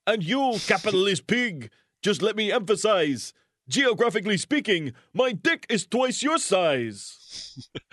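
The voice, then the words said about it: Put-on Russian accent. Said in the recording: “My Russian accent, get no respect.”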